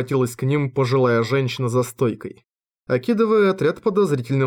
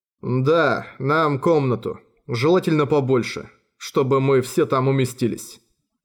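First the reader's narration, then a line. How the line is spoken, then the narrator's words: Plain. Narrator (Russian): сказал Тору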